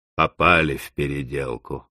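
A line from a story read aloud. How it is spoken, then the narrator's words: Grumbling. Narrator (Russian): заворчал Корлье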